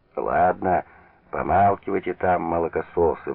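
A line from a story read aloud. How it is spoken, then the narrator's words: Grumbling. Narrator (Russian): ворчал он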